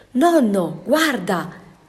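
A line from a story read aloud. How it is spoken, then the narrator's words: Child exclaiming. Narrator (Italian): esclamò il nipotino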